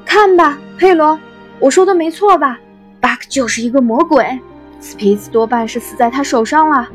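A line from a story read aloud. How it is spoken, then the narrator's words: Shouting across distance. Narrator (Chinese): 他朝着不远处的佩罗喊道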